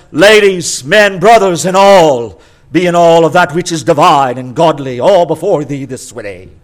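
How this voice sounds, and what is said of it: Authoritative, somewhat British accent. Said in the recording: “everybody sounds authoritative with a somewhat British accent.”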